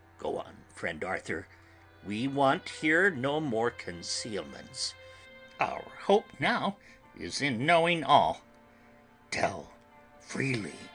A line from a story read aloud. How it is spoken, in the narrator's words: Van Helsing said gravely